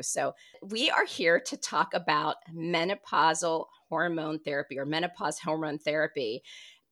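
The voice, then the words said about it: Raspy voice from a cold. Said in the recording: “apologies for my raspy voice. I tend to always catch a cold”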